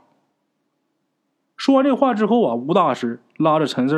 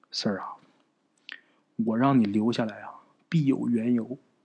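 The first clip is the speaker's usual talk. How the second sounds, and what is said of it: Quiet, hushed speech. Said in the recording (Chinese): “很小声的跟着陈四说”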